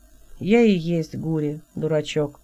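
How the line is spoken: Flat monotone answer. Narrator (Russian): Ровным голосом, без интонации, ответил Хелот

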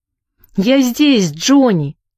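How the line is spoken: Shouted from doorway. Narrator (Russian): крикнул Сэнди с порога

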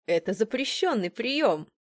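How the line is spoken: Exclaiming. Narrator (Russian): воскликнул он

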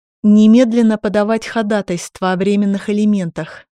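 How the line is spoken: Plain. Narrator (Russian): ответил Илья

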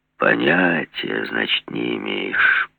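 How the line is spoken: Drawling. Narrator (Russian): протянул Жиглов

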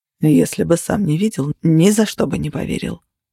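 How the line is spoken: Mutter. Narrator (Russian): пробормотал Тейт

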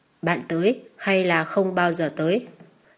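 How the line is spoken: Fast, hoarse, suspicious. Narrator (Vietnamese): Bằng giọng ngờ vực, hắn nói nhanh giọng khào khàn

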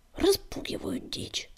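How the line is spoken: Hiss, sandstorm spitting dust. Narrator (Russian): прошипела песчаная буря, сплевывая пыль

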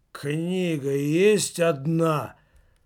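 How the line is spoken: Mumbling giant. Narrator (Russian): промямлил гигант

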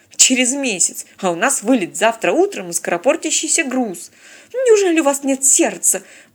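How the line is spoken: Theatrical exclamation for audience. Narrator (Russian): патетично воскликнула девица, явно работая на публику

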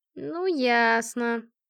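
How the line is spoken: Drawn-out. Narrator (Russian): протянула подруга

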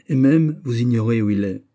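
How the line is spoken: Cold, resuming. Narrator (French): reprit froidement Raoul

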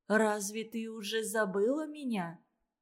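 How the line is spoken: Soft question. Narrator (Russian): спросила она тихонько

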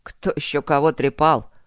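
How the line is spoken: Sullen grunt. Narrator (Russian): угрюмо хмыкнул Гроул

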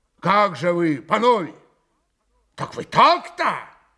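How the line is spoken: Loud resonant voice. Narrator (Russian): Пан Врублевский зычным голосом проговорил

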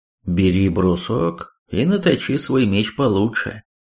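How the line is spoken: Calm suggestion. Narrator (Russian): спокойно предложил Таранвер

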